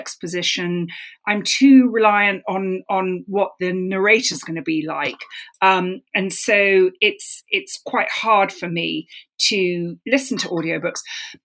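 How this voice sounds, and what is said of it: London English accent. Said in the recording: “as you can hear, this is, yes, a London accent.”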